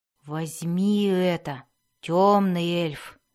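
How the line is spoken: Soft. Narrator (Russian): мягко произнес он

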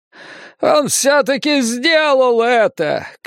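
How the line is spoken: Shouting. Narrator (Russian): кричал Сол

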